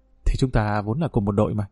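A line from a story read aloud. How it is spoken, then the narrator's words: Soft laugh. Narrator (Vietnamese): Trinh khẽ cười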